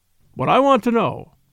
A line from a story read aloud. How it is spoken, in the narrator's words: cried Kalon, with an oath